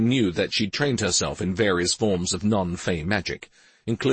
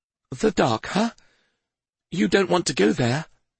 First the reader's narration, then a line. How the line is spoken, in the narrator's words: said Pi in his crackly voice